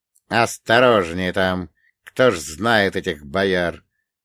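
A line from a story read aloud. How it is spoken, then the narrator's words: Uncle muttering. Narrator (Russian): пробурчал дядя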